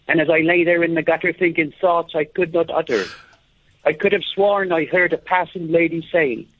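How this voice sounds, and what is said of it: Put-on Irish accent. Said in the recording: “including the Irish accent there”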